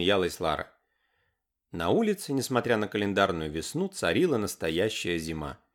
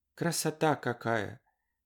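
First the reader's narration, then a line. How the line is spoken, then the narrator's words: Whispered. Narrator (Russian): прошептала Варя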